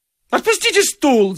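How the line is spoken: Sudden shriek. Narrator (Russian): завизжал вдруг Авесолом Владимирович

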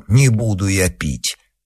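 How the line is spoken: Muttering. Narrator (Russian): Он пробормотал

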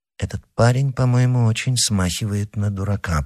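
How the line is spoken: Muttered. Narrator (Russian): пробормотал

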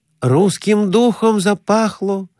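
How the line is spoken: Joyful. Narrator (Russian): радостно говорил Конурин

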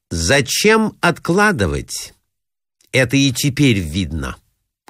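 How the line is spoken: Loud, disgusted. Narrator (Russian): громко ответила Зина, с отвращением

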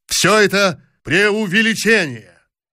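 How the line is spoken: Frantic shout. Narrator (Russian): еще раз неистово крикнул

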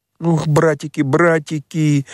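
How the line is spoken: Trembling sobs, chattering teeth. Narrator (Russian): всхлипывал Петька, дрожа, как лист и стуча зубами

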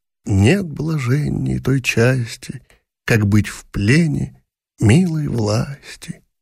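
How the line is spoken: Involuntary whisper along. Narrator (Russian): Она шептала невольно вслед за певцом

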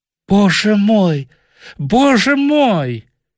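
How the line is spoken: Exclamation. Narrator (Russian): Мельвертон вскочил и воскликнул

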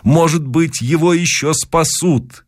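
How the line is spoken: Shouting. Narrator (Russian): кричал я

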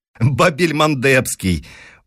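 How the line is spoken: Laughing loudly. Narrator (Russian): Он опять расхохотался

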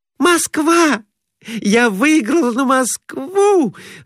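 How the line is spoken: Joyful cry. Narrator (Russian): радостно вскрикнула Глафира Семеновна

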